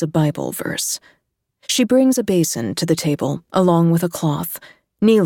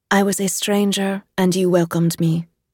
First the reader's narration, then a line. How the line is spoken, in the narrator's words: says Isabel